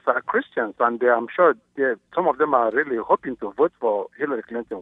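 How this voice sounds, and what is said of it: African accent. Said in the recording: “as seemed evident from your accent, from Africa”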